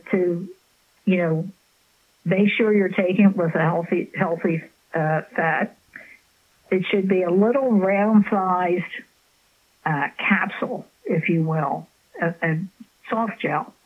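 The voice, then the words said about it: Strained, fading voice. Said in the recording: “I'm losing my voice a little bit here.”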